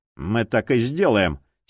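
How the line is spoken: Angry declaration. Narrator (Russian): сердито заявил Прайс

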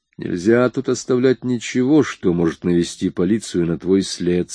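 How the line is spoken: Plain. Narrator (Russian): сказал я

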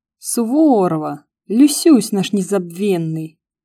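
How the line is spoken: Exaggeratedly joyful male bellow, phone. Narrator (Russian): Преувеличенно радостно загорланил мужской голос в трубке

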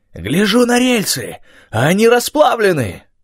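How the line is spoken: Furious yelling. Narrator (Russian): орал, молотя кулаком по столу

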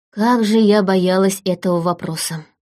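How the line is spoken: Sighing reluctant confession. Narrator (Russian): Вздохнув, все-таки призналась

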